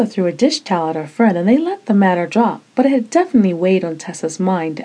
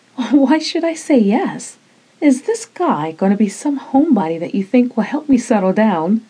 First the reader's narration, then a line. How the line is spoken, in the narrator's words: Desiree laughed